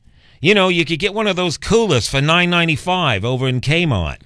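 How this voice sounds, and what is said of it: Put-on New York accent. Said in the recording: “Why the accent all of a sudden? ... from New York ... Kmart from back east”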